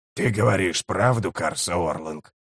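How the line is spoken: Hoarse rasp. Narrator (Russian): прохрипел Киннигиг

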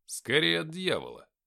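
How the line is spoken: Muttered. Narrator (Russian): пробормотал я

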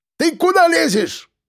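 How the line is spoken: Exclamation. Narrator (Russian): воскликнул знакомый голос

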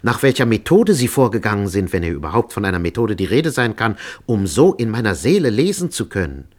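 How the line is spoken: Exclaimed. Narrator (German): rief aus

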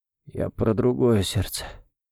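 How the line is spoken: Quiet clarification. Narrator (Russian): тихо уточнил

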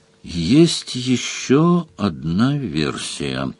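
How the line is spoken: Slow speech. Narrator (Russian): сказал Сварог медленно

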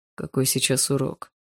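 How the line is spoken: Quiet question. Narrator (Russian): тихо спросил Барс у Полины

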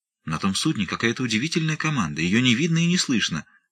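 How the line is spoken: Amazed exclamation. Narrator (Russian): воскликнула гувернантка, и в голосе ее прозвучало изумление

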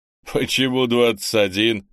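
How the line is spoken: Chuckling strongman. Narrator (Russian): хохотнул силач

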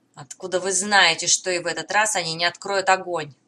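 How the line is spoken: Grumbling. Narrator (Russian): проворчал Деврис

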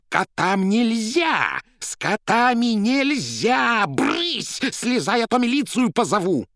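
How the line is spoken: Furious trembling shout. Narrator (Russian): со злобой, от которой даже тряслась, закричала

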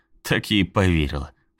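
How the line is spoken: Snort. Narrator (Russian): фыркнула Стейси

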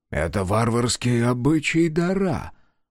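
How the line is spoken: Whispered. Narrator (Russian): прошептал Кудью

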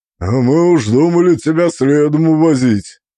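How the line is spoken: Deep, gruff but caring. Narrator (Russian): Пробасил Торбин, и в его голосе, несмотря на грубость, звучала забота

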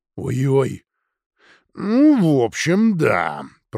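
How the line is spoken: Growling. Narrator (Russian): прорычал Гарфилд

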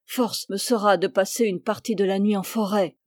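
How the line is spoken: Grumbling. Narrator (French): bougonna-t-il

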